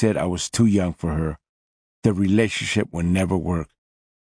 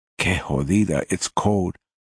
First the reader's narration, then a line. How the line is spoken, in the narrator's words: I stammered out loud to no one in particular